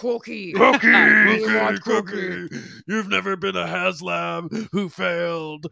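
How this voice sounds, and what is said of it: Attempted Cookie Monster, sounds like Ultimate Warrior. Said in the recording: “should I do a Cookie Monster voice? ... That's the Ultimate Warrior. You just sound like the Ultimate Warrior.”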